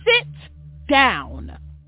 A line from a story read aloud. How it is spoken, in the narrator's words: she said firmly